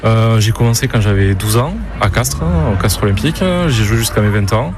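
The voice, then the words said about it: Southern French accent. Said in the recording (French): “qui vient de Castres, justement. On va l'entendre avec son accent.”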